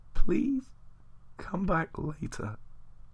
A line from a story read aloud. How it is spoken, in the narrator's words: I croaked aloud